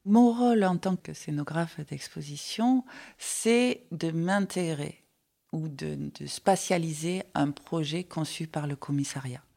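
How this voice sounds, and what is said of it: Light Marseille French accent. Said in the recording (French): “j'entends ton accent... c'est un accent léger de Marseille”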